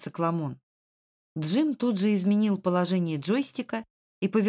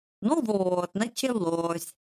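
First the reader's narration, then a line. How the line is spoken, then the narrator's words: Nasty voice. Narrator (Russian): гадким голосом прокомментировал цикламон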